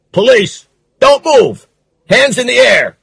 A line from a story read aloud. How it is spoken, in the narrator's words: The sergeant shouted